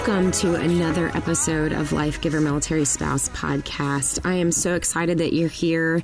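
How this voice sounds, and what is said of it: Congested voice from a cold. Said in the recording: “I may sound like I have a little bit of a cold”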